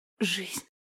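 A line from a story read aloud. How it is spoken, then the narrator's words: Whispered. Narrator (Russian): прошептала Ольга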